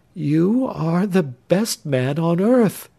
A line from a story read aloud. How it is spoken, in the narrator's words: said the young girl in a faltering voice